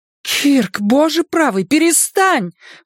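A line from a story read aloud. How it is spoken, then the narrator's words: Horrified exclamation. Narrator (Russian): в ужасе воскликнула Шарлотта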